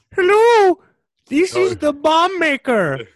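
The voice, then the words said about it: Bad disguised voice. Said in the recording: “in this horrible disguised voice.”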